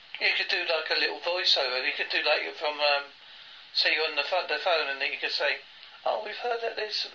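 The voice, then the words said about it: British accent, Essex and Devon mix. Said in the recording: “my accent isn't a typical what you expect from a British accent, because it's part Essex and part of Devon”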